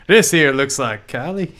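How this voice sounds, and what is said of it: Weird put-on Texan accent. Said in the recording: “Texas is Australia? ... that was a weird Texas accent. ... That's perfect. Spot on.”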